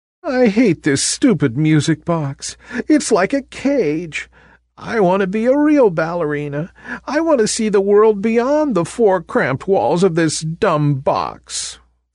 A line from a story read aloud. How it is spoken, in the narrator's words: the little ballerina cried